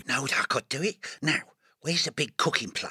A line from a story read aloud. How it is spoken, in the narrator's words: muttering